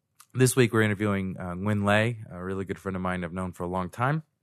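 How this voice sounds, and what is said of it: Congested, wonky voice from cold. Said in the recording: “I've got a bit of a cold this week ... you'll get used to my voice being wonky”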